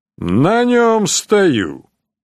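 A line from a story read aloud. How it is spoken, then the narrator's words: Calm. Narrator (Russian): спокойно ответил Хайн фон Чирни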